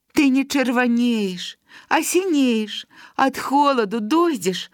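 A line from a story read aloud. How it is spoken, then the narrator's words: Tender, trembling. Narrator (Belarusian): ласкава гаварыла Галка, і губы яе дрыжалі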